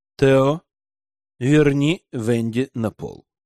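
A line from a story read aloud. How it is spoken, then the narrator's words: Stern voice, duke. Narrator (Russian): строго проговорил герцог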